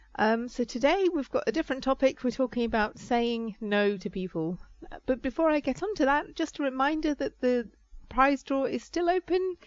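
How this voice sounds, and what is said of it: Voice affected by sore throat. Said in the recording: “As you can perhaps hear from my voice, I have had a sore throat”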